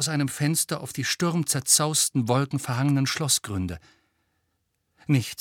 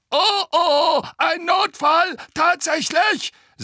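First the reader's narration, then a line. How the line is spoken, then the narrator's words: Shrill gargoyle voice. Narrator (German): sagte der andere Wasserspeier mit schriller Stimme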